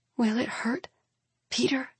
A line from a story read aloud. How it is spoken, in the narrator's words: She whispers